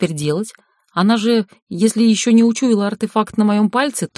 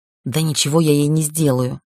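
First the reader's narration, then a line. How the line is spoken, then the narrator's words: Hissing. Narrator (Russian): прошипела магичка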